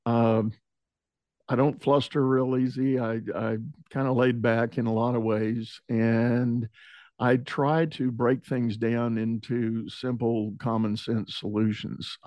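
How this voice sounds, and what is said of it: Texan accent. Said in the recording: “you might detect from the dialect, I'm a Texas boy. I'm born and bred.”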